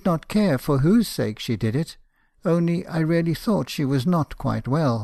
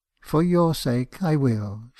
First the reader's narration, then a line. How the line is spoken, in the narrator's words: she said tenderly